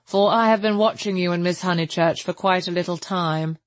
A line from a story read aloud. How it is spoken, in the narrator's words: said the chaplain blandly